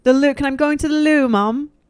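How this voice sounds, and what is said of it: Put-on British accent. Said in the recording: “I have a great accent, as you can tell.”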